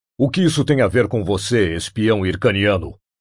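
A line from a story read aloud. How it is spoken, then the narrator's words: Growling. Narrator (Portuguese): rosnou Conan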